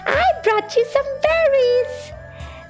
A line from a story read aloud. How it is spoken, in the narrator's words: cried as he ran